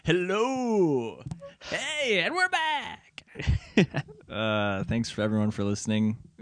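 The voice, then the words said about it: Put-on radio announcer voice. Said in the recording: “You can hear my radio voice now.”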